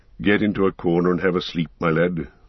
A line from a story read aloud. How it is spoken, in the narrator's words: he said in a kinder tone